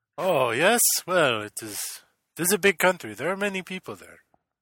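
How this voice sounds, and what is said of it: Put-on Russian accent. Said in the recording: “Russian accent ... I noticed you have an accent”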